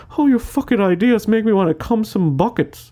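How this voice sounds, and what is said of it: Impression of a stereotypical man. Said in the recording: “my impression of men”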